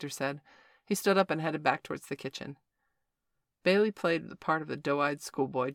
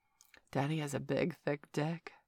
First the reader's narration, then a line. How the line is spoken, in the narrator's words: purred Valerie